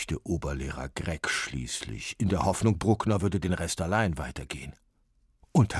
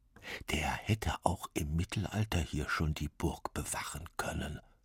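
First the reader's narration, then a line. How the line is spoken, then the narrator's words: Mischievous whisper. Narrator (German): flüsterte Bruckner seinen Freunden verschmitzt zu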